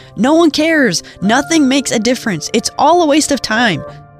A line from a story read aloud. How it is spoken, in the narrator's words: burning anger when he'd yelled